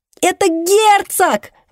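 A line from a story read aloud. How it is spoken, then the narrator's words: Yelling. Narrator (Russian): вопит Донателло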